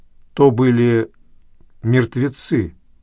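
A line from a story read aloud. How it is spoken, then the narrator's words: Plain. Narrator (Russian): ответил я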